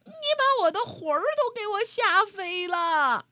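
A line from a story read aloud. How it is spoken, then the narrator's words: Old woman shouting. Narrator (Chinese): 瘦小的老妇人喊起来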